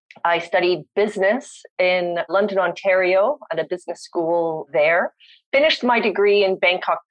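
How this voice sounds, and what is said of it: Canadian English accent. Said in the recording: “my accent is Canadian”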